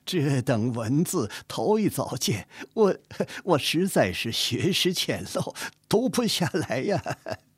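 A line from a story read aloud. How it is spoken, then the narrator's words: Smiling, hesitant. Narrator (Chinese): 纪云仍旧是笑，摇头攒眉审量着，半日才说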